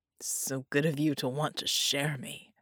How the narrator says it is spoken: Red grunted

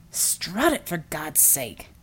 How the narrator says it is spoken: Klaus hissed

